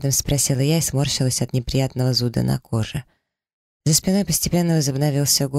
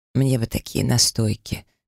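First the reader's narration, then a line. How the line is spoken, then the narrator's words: Dreamy sigh. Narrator (Russian): мечтательно вздохнул Тайфун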